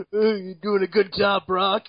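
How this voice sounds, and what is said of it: Imitates another person's voice. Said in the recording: “that your Triple H impression?”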